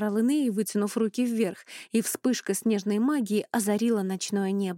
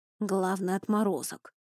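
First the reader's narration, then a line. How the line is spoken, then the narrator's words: Quiet. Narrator (Russian): тихо произнес Рони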